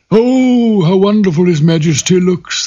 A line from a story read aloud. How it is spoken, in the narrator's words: the courtiers cried